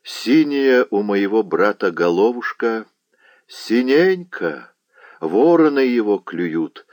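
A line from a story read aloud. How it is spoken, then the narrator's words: Plain. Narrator (Russian): сказала ведьма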